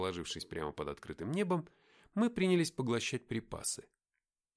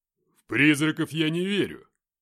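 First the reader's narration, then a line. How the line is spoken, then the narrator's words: Exclaimed. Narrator (Russian): воскликнул Филиппыч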